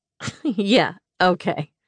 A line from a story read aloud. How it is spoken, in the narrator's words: she scoffed